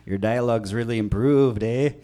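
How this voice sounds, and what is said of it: Put-on Canadian accent, weak. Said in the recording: “Canadian? ... You went Canadian. ... That's not even an accent. That's just adding an extra syllable at the end.”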